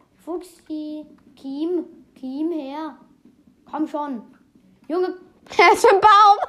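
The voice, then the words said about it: Speaks with a put-on accent. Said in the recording (German): “ich versuche mit Akzent.”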